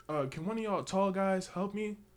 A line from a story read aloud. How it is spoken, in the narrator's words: She just yell out